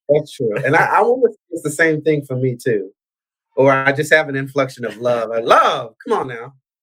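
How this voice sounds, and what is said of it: Southern American twang. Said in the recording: “that's Southern. I thought I heard that Southern twang in there.”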